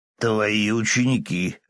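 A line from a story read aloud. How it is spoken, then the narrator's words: Smirking growl. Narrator (Russian): рыкнул тот с ухмылкой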